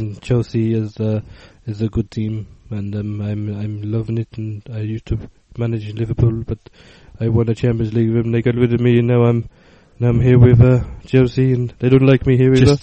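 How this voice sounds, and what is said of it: Mumbled Rafa Benitez impression. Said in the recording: “your impression of Benitez just requires a lot of mumbling”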